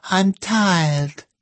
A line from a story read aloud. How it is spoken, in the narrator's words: whined Jemima Jane